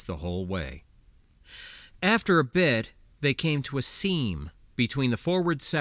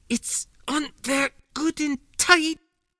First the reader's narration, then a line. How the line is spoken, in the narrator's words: she grunted